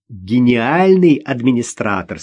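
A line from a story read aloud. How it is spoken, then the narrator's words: Laughing. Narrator (Russian): смеясь, добавила Наташа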